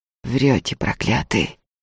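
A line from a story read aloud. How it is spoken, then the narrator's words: Hoarse. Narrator (Russian): хрипло сообщила им Устинья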